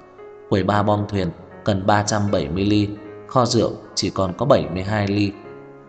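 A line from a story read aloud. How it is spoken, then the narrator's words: Muttering. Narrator (Vietnamese): đồng nghiệp lẩm bẩm nói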